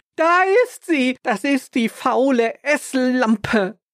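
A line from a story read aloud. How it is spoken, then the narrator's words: Shouted. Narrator (German): Sie schrie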